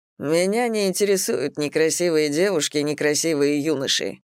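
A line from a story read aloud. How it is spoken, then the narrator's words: Snorted. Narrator (Russian): фыркнул Олаф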